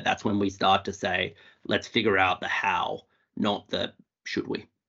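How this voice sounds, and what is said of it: Australian accent. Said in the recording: “my Australian accent ... The Australian accent's very welcome and very engaging.”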